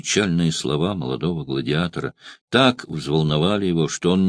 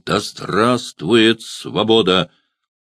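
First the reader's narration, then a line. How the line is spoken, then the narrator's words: Strong ringing exclamation. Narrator (Russian): Улыбаясь, звучным сильным голосом воскликнул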